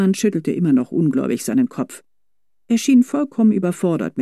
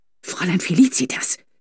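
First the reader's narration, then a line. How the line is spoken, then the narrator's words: Quiet warning hiss. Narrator (German): zischte Fräulein Corbinian leise mahnend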